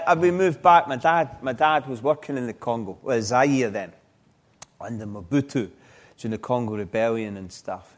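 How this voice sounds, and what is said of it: Scottish accent. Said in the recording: “are you really a Scotsman? ... The accent gives it away, really. ... this lovely Scots accent”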